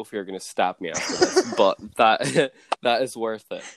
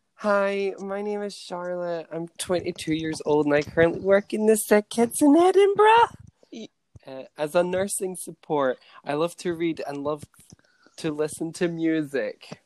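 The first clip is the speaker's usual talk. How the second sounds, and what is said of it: Imitates another person's voice. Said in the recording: “that is probably the worst Charlotte impression I've ever done.”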